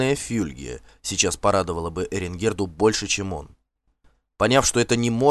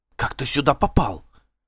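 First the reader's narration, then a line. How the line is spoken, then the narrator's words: Indignant, frightened whisper. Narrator (Russian): с возмущением и испугом прошептала Эренгерда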